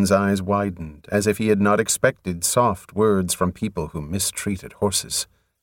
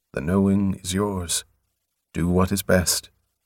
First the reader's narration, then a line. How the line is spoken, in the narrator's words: Gently, the Lord responded